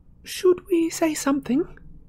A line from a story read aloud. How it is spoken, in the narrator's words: said Hermione in a worried voice